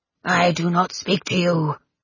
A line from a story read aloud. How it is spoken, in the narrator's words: croaked Crux with solemn dignities